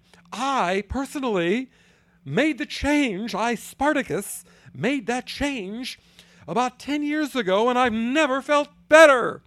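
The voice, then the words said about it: Imitates another person's voice. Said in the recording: “my Cory Booker impression”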